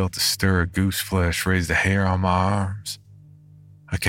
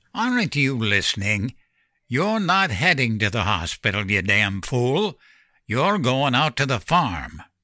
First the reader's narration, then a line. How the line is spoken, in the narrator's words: He grunted